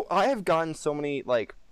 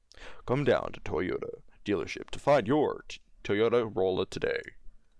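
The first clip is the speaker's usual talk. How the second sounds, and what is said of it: Commercial voiceover announcer voice. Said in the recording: “comments about how, like, my voice sounds during this podcast... you should do voiceovers”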